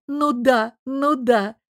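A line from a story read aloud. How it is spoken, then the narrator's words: Giggled. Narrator (Russian): хихикнула Лара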